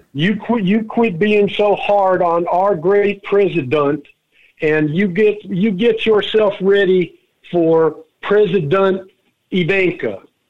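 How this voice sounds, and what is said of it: Put-on Southern redneck accent. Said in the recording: “I didn't know he could do a Southern accent. A redneck accent, that would be.”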